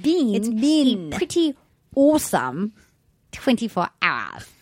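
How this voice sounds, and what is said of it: Put-on accent. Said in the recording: “Severe when you do that accent. ... You have the bin, like, perfect.”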